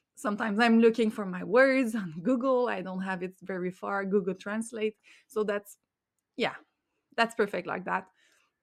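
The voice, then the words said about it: Non-native English accent. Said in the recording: “I don't speak it perfectly. I have my accent.”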